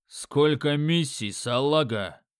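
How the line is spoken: Gruff bark. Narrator (Russian): рявкнул носорог

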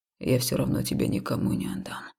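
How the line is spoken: Quiet, slightly indifferent. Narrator (Russian): тихо, даже слегка равнодушно произнес жнец

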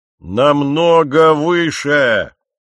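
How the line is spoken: Menacing roar. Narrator (Russian): проревел он, точно старый крокодил, собравшийся откусить голову какой-то твари поменьше

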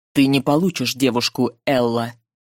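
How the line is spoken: Cold declaration. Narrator (Russian): заявил холодно

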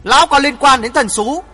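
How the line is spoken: Angry old man shouting. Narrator (Vietnamese): Bắc Cực lão nhân tức giận hét

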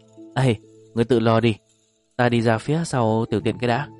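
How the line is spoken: Laughing, then speaking. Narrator (Vietnamese): Đường Bảo Nghiêu lại cười phá lên, mới cười được vài tiếng chợt cảm thấy mắc tiểu, liền nói

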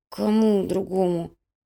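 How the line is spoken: Mumbled. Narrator (Russian): промямлил Грыжа

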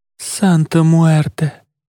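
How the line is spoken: Creaky, through gritted teeth. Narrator (Russian): проскрипела Марица сквозь зубы

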